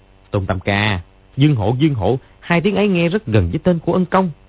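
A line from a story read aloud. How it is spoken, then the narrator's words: Disappointed, then sudden loud cry. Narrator (Vietnamese): Gã họ Trần có vẻ thất vọng, lẩm bẩm gì đó, đột nhiên kêu to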